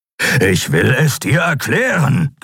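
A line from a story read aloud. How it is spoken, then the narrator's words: Growling. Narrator (German): knurrte Kero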